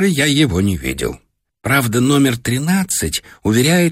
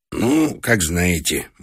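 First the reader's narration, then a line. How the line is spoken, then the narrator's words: Gruff mumble. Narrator (Russian): буркнул он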